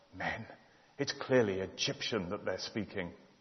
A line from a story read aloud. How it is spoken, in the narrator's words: a woman mutter under her breath